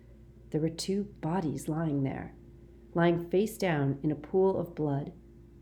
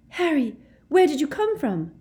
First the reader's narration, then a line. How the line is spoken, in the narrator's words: Ginny cried